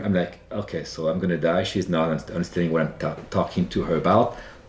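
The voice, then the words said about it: Slight French accent. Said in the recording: “my French accent, which is charming French accent, slightly French accent.”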